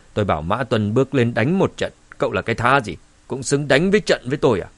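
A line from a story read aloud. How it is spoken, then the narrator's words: Cold. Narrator (Vietnamese): Cao Hùng lạnh lùng nói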